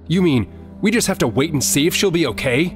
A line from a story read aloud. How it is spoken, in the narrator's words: Link asked angrily